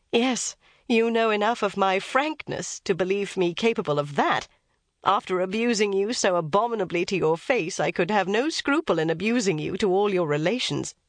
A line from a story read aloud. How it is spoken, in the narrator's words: Elizabeth coloured and laughed as she replied